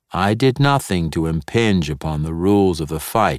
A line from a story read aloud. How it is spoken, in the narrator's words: stated flatly